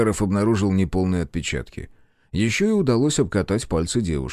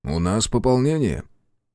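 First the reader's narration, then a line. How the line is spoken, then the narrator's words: Even, level tone. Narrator (Russian): Юрий Васильевич ровным голосом сообщил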